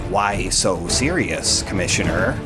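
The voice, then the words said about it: Imitates another person's voice. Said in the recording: “do an impression of a dead actor”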